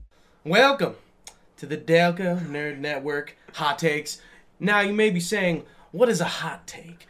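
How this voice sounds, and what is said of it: Deliberately bad put-on accent. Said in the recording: “my kind of bad accent”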